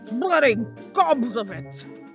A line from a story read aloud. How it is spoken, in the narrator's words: boomed the revived peer